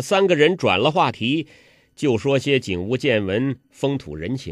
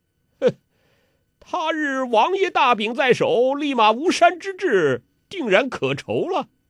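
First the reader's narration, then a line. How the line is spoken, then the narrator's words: Dry laughter. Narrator (Chinese): 欧阳锋干笑几声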